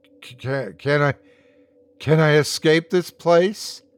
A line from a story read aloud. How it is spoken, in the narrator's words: He sighed